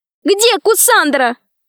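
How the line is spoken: Shouted. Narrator (Russian): закричала Алиса

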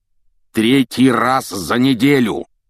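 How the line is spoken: Roaring. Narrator (Russian): проревел

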